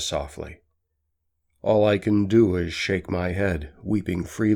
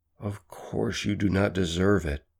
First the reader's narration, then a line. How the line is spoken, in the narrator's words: says softly